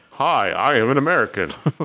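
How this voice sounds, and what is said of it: Put-on American accent. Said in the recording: “they do some bad American accents ... You sounded very American there.”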